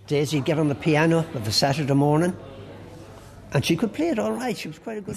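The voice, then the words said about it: Hint of a Cockney accent. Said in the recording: “Sometimes you can just hear the hint of a Cockney accent.”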